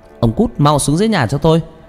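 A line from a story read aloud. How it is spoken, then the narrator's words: Woman shouting angrily. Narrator (Vietnamese): bà quát lớn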